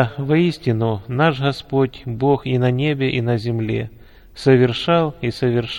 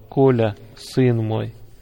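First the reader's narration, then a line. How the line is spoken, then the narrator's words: Affectionate. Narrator (Russian): Николая он ласково называл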